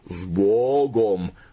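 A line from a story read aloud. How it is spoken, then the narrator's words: Deep growling farewell chant. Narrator (Russian): рычали октавы, словно провожая его в дальнюю дорогу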